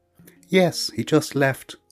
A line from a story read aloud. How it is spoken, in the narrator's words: piped the hedgehog